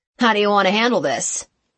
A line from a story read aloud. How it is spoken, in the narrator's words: asked Bruce in a gruff voice